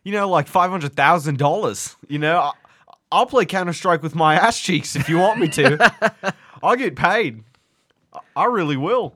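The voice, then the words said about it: Put-on Australian accent, fairly convincing. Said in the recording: “I'm actually kind of blown away by how good that accent was. That was actually a decent. You fell into it. ... I like love the Australian.”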